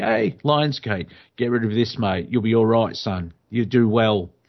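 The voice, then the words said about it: Relaxed London accent. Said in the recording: “That was an accent ... That's a nice, relaxed London accent.”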